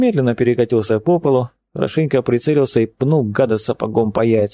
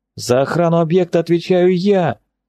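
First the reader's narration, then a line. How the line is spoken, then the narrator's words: Captain's full-throated bellow. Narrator (Russian): благим матом заорал капитан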